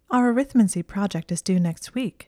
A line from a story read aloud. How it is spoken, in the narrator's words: she said in a light voice